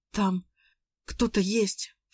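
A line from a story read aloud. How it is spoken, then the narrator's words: Whisper. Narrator (Russian): шепотом сказала Надя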